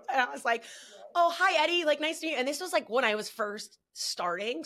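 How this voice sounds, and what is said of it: New Jersey accent. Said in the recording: “I was very loud ... I don't think I have an accent ... oh my God, your accent, you're from New Jersey”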